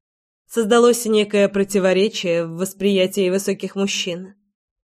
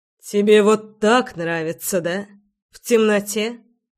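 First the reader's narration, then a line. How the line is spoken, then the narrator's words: Growl. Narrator (Russian): Не сказал, прорычал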